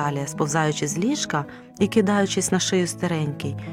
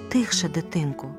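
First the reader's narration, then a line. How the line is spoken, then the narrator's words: Dwarf woman's whisper. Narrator (Ukrainian): прошепотіла карлиця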